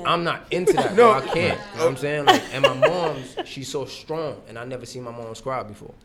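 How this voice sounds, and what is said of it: Caribbean accent. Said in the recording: “I'm from the Caribbean ... I hear an accent.”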